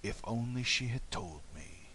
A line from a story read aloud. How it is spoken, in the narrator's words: he murmured